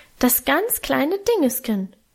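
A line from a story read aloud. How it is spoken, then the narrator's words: High urgent squeak. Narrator (German): piepste er noch heller und eindringlicher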